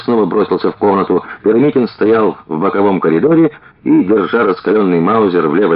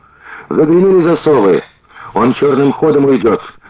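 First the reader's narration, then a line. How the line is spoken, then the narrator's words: Shout. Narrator (Russian): крикнул Витька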